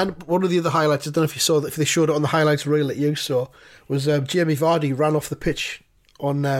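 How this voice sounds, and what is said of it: Usual voice. Nothing is said of it.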